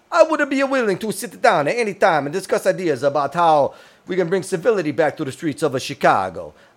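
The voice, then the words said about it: Imitates another person's voice. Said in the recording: “in the accent that I think ... that I think this is how he talks”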